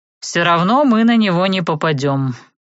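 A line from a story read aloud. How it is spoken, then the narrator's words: Grumbling mutter. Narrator (Russian): буркнул Савелий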